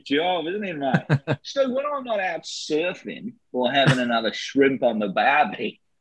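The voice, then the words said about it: Put-on Australian accent. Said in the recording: “I'm glad you told me I was Australian because I was going to do a Welsh accent for George Lazenby.”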